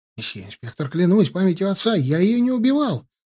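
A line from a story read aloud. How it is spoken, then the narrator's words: Rapid chattering. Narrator (Russian): затараторил он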